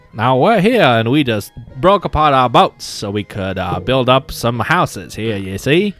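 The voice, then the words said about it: Old-time gangster voice. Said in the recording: “Why am I speaking like a gangster?”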